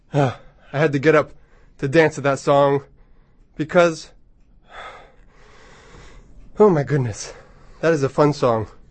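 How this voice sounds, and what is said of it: Slightly out of breath. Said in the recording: “I'm a little bit out of breath”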